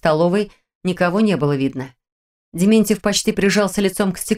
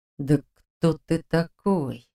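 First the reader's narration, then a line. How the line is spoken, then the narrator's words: Through teeth, suppressed rage. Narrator (Russian): процедил Дементьев, с трудом подавляя бессильную злобу, клокочущую внутри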